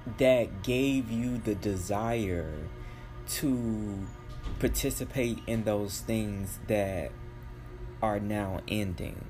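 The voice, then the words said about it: Speaking very slowly. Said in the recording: “why I'm talking so slow”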